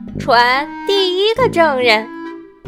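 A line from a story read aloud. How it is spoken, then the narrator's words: Calling out. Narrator (Chinese): 白兔喊道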